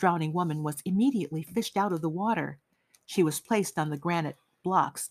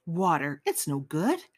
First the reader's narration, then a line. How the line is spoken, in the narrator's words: he muttered to himself